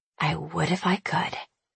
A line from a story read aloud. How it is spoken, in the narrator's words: I whisper